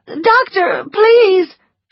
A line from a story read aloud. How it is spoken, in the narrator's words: she cried